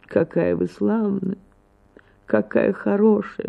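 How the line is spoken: Weak, sickly voice. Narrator (Russian): начал немного погодя, слабым голосом, точно больной

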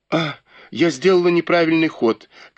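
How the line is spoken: Sudden realizing exclamation. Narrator (Russian): как бы спохватившись, воскликнула Фэнзе

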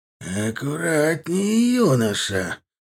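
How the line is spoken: Snake-like hiss. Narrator (Russian): Натуральным змеем прошипел Анвар

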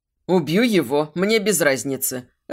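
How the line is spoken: Growl. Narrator (Russian): рыкнул Дэн

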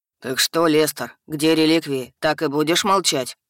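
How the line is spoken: Low booming voice. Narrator (Russian): Прогудел Хак

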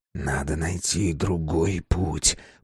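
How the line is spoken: Whisper. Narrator (Russian): прошептал Безил

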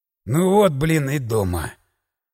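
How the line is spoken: Hoarse sigh. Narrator (Russian): Хрипло вздохнул я

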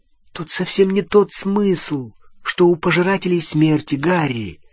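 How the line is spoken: Gentle. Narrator (Russian): мягко сказала Гермиона

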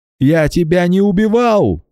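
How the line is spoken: Shouting man. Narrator (Russian): закричал он

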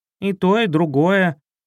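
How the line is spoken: Growl. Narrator (Russian): рыкнул Златобров

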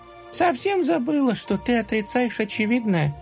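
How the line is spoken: Sigh. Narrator (Russian): вздохнула она

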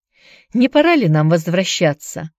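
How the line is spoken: Dry question. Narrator (Russian): сухо спросила она

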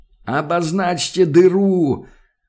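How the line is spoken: Full-lung shout drowned by din. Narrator (Russian): Во всю силу легких заорал он, но крик этот потонул в стоящем вокруг грохоте

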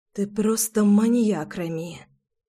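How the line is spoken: Convulsive whisper. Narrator (Russian): судорожно прошептала Руслана

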